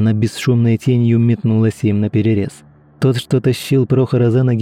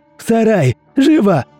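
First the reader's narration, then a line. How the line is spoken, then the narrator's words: Shout. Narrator (Russian): крикнул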